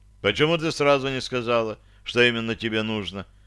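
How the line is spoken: Dry question. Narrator (Russian): сухо спросил я

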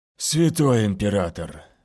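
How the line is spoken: Relieved exhale. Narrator (Russian): выдохнул он с облегчением

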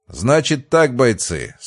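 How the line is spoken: Stern. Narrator (Russian): строго произнес Рябоконь

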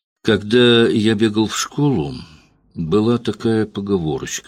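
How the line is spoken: Calm. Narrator (Russian): сказал спокойно

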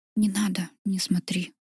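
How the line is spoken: Soft whisper in ear. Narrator (Russian): тихо шепнул мне на ухо

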